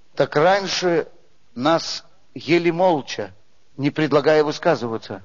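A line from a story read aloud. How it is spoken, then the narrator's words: Old ram, sighing. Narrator (Russian): Старый баран вздохнул и ответил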